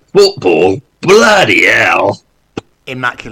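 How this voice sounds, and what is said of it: Imitates another person's voice. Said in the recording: “The impersonation ... was immaculate.”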